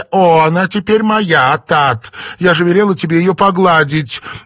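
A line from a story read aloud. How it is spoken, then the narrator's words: Shrill Cantonese speech. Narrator (Russian): визгливым звукам кантонского диалекта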